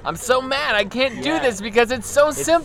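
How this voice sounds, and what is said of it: Impression of a frustrated game player. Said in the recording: “That was my impression ... that was my impression of someone playing Flappy Bird”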